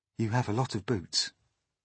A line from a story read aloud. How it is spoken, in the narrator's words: James murmured